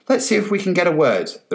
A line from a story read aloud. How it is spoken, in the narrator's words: the reporter said hastily into the camera